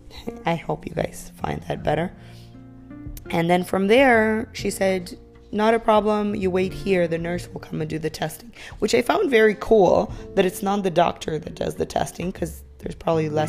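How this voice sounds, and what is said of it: Voice affected by cough. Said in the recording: “I had a terrible cough. I still do, as you can hear by my voice”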